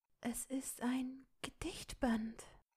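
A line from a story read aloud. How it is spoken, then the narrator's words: Spoken softly. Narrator (German): sprach sie leise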